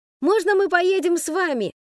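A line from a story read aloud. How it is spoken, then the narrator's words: Shouting. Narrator (Russian): Немо крикнул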